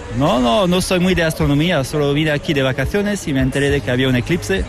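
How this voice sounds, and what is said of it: French accent speaking Spanish. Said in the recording (Spanish): “por tu acento, yo creo que de Madrid no eres ... soy francés”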